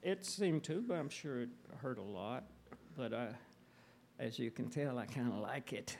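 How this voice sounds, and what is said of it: Southern American accent. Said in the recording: “lose your accent ... I'm just a dumb Southerner ... The accent has been an asset and an Achilles heel”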